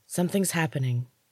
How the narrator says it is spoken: she said hoarsely

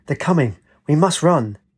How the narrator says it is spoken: She said urgently

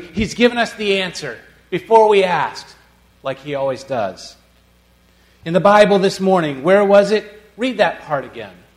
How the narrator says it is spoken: said excitedly

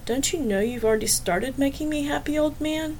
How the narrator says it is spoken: She said quietly

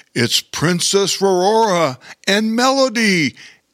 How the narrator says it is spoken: exclaimed Bear King

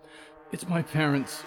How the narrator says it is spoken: Clara sobbed

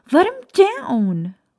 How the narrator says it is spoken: Lily screamed

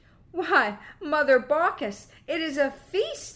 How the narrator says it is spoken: exclaimed Quicksilver, laughing

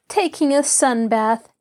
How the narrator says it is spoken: Nancy laughed

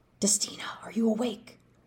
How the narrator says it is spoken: Colton whispered to Destina's limp body

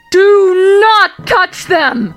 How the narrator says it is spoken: The wolf could hear her voice in his head as she screamed

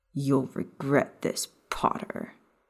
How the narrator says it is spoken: Snape growled

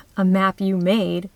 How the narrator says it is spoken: was the typical retort

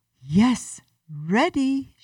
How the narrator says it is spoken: she yelled

